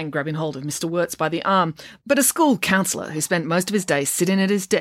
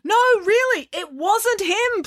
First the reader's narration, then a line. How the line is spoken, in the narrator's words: pleaded Mr